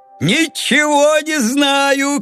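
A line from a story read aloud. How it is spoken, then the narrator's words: Shouting. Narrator (Russian): кричал Леонид Сергеевич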